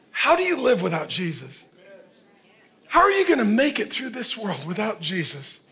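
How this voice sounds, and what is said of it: Yelling, impassioned preaching. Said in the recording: “I'm yelling not because I'm angry, but because I'm worried.”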